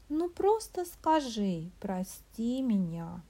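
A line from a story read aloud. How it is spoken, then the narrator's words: Thoughtful complaining under breath. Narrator (Russian): Сетовала она задумчиво самой себе под нос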